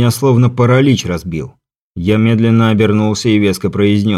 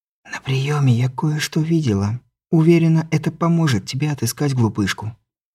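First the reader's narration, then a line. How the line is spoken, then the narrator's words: Soft whisper. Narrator (Russian): Елизавета Мария тихонько прошептала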